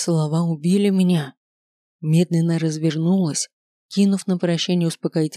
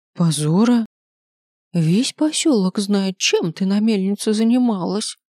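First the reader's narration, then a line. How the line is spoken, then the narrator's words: Quiet. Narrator (Russian): тихо произнесла Настасья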